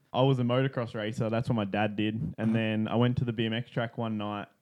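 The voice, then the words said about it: Australian accent. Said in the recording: “accent's not from Texas ... I'm from Sunshine Coast in Australia”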